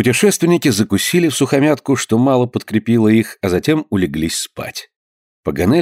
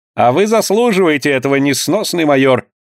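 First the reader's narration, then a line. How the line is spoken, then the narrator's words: Laughing reply. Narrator (Russian): смеясь, ответил Паганель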